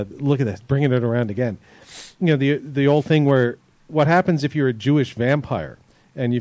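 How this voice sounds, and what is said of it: Usual voice. Nothing is said of it.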